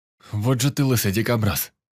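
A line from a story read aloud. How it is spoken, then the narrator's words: Exclaimed. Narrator (Russian): воскликнул Лёха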